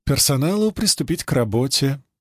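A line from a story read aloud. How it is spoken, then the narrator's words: Calm order. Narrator (Russian): спокойно распорядилась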